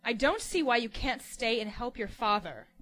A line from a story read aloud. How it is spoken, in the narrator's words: Ellen said, angrily